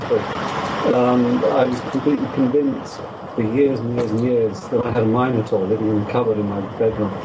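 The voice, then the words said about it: Speaks with a noticeable accent. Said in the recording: “if you just get rid of the accent ... I like the accent. I think it makes our show sound more intellectual. ... It definitely adds a touch of class.”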